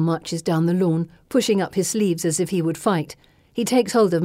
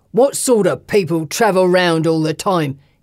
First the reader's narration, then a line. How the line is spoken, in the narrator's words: he shouts